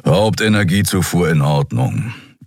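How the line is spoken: Growl. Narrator (German): knurrte Keru

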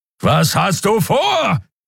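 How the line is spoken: Repeated roar. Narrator (German): brüllte Keru wieder

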